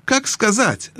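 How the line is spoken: Skeptical snort. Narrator (Russian): хмыкнул тот

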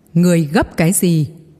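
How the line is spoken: Weakened beast's roar. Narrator (Vietnamese): Tiếng gầm của con thú kia đã nhỏ đi rất nhiều, nhưng nó vẫn gầm lên

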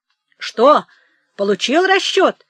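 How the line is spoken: Shouting from afar. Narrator (Russian): кричал издали Михей Зотыч

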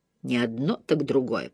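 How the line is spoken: Grumbling. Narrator (Russian): пробурчала она

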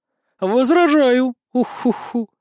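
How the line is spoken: Sleepy yawning bird. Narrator (Russian): Сонно зевнув, произнесла птица

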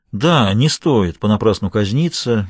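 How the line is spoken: Soft, sympathetic. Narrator (Russian): мягко посочувствовал адвокат

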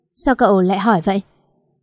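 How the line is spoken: Hurt, faint wry laugh. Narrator (Vietnamese): lại cười nhạt

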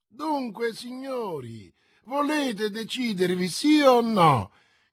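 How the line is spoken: Shouted, third time. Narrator (Italian): gridò per la terza volta Jussac

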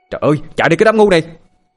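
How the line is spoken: Sudden involuntary shout. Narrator (Vietnamese): Tôi bất giác hét lên với bọn chúng

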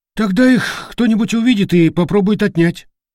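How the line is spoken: Sighing. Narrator (Russian): вздохнул Уйбуй

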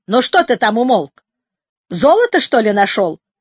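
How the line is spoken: Shouting from below. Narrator (Russian): закричал немец внизу

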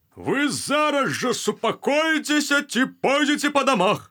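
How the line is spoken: Barking. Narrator (Belarusian): гаркнуў ён

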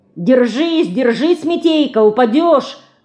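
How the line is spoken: Father shouting. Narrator (Russian): кричал отец

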